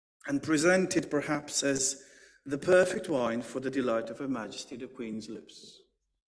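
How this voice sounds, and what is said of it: Put-on British accent. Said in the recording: “if I do it in perfect English, a British accent, it sounds more convincing”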